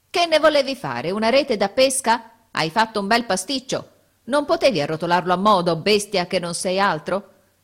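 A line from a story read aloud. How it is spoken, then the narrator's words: Grumbling with exertion. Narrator (Italian): Brontola di tanto in tanto, affaticandosi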